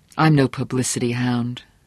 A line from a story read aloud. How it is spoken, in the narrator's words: Johnny said grimly